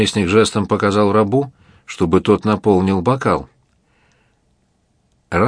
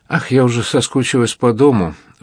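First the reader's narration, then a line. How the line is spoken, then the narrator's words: Sigh. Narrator (Russian): вздохнула Клавдия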